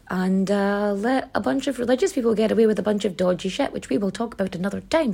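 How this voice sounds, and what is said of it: Own accent, i's sound like e's. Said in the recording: “my accent pronounces my eyes like e's to other people ... my accent is part of my identity and it's a lovely accent”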